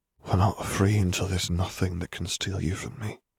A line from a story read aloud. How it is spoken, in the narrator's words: Harry murmured